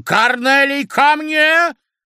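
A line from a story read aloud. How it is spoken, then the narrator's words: Commanding shout. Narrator (Russian): крикнула ему командирским голосом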